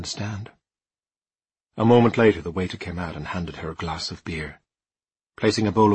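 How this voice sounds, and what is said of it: Usual voice. Nothing is said of it.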